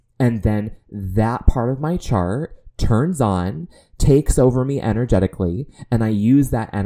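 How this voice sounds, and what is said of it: Usual voice. Nothing is said of it.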